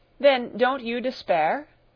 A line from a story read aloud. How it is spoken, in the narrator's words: cried irritably